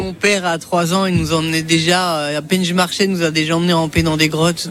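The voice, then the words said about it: Swiss Jura French accent. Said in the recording (French): “Ça s'entend avec le bel accent. Jura suisse. ... il est parti un peu”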